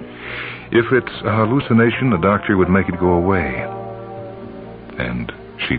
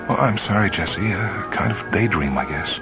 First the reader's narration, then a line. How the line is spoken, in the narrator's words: her voice sounded strange as she said